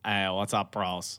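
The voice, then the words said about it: Imitates a YouTuber's voice. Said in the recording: “his PewDiePie impression”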